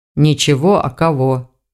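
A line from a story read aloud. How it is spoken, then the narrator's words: Grumbling. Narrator (Russian): проворчал старший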